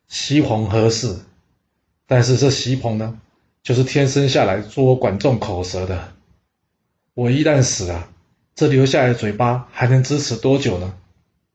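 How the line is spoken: Sighing. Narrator (Chinese): 管仲叹了口气说

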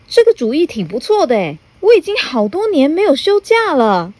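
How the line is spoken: Happy shout. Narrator (Chinese): 高兴的大叫

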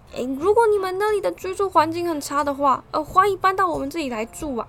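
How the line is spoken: Shouting. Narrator (Chinese): 他们对着士兵大喊

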